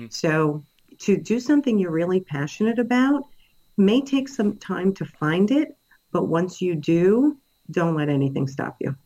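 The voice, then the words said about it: New York accent. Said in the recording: “I'm a New Yorker, if you haven't been able to tell by my accent”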